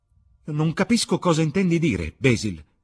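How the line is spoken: Exclaimed. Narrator (Italian): esclamò Dorian

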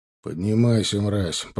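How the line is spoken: Calm speech. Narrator (Russian): проговорил я спокойно

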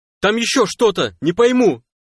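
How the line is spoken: Shout. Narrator (Russian): крикнул тахосянин сталкеру

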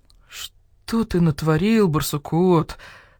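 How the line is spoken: Dejected voice. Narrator (Russian): сказал барсук-старший упавшим голосом

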